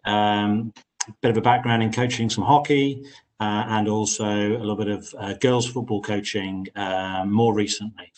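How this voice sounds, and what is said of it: Wirral accent. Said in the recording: “your dulcet Wirral tones”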